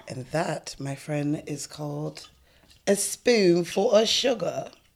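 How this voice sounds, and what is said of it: Attempted British accent. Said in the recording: “Is that your British accent? ... That's the best I got. ... Dick Van Dyke failed. ... I sound a little better than him, I think.”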